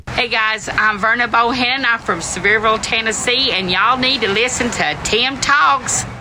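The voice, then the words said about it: Heavy Tennessee Southern drawl. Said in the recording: “What a draw... That's such a heavy draw... I love your accent”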